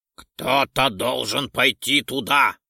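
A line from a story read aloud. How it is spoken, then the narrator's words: Loud. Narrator (Russian): громко произнес Лайсон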